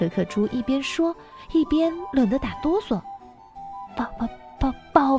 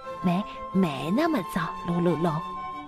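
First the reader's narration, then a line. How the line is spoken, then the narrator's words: Ashamed, low voice. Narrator (Chinese): 鲁鲁龙羞愧万分的低声回答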